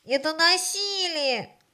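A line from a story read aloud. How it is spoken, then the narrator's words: Shouting. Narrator (Russian): кричали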